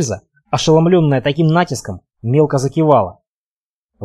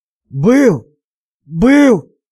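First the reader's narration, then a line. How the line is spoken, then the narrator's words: Wheezing from underfoot. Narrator (Russian): прохрипел из-под подошвы Илья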